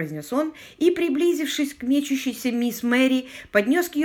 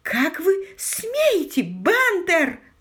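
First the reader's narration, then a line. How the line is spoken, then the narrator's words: Shouted. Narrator (Russian): закричала мисс Мэри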